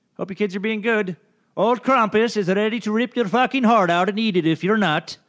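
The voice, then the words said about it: Attempted Scandinavian accent. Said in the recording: “I was trying to do some kind of Scandinavian accent.”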